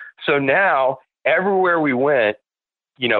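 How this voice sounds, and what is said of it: Usual voice. Nothing is said of it.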